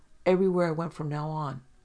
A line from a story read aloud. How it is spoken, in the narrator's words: Steve said sharply